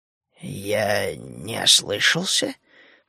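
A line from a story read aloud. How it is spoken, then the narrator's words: Hoarse, dry throat. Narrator (Russian): прохрипел он пересохшим горлом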